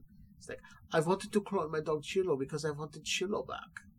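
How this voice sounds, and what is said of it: Put-on German accent. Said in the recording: “this guy sounds like like someone doing a German accent impression.”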